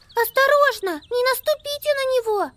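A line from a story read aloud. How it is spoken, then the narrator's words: Squeak. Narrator (Russian): пискнула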